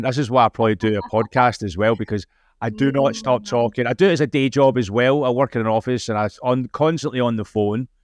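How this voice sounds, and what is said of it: Scottish accent. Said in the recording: “being Scottish, the accent”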